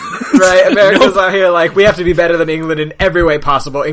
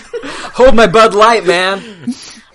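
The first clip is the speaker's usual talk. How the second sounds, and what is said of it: Put-on American accent. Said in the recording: “That's my impression of an American. ... You did a good job. I almost believed it.”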